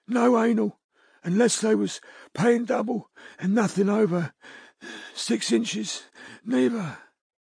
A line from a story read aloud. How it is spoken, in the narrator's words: she panted